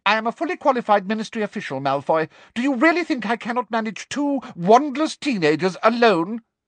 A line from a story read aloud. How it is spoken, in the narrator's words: asked Umbridge sharply